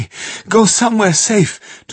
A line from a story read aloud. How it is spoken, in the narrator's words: Tonino panted